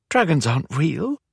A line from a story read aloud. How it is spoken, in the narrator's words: Pippa informed her with a giggle